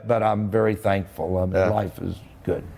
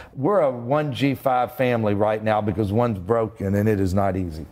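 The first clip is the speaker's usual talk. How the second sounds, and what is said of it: Sarcastic, joking tone. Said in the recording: “I'm just kidding. ... I'm being sarcastic,”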